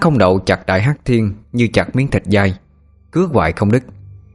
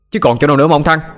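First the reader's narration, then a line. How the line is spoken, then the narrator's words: Shouting back. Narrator (Vietnamese): Sinh cũng hét lại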